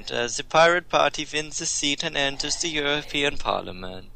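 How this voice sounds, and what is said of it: Put-on Swedish accent. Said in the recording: “We need the Swedish accent. ... A Swedish accent.”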